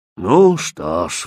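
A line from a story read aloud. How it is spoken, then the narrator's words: Raven's sigh. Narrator (Russian): вздохнул ворон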